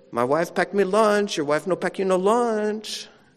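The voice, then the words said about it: Put-on Hispanic accent. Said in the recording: “He's a Hispanic or Mexican guy ... I'm going to try to mimic his accent”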